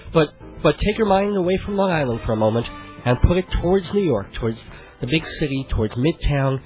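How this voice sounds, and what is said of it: Ragged voice from a cold. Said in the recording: “my voice is a little bit ragged because I came down with a cold”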